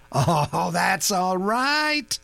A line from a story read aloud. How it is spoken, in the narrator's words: Rudge laughed